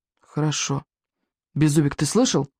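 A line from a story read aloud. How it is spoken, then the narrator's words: Stern whisper. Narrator (Russian): строго шепнул Икинг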